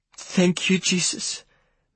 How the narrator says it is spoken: I heard my mother say in a weepy voice

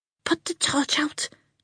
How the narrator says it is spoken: she hissed

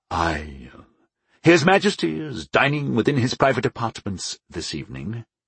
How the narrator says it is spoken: the man said smoothly

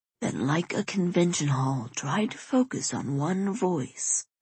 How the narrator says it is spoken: Wesley says quietly

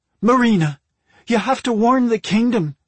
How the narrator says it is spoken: Magicka cried out

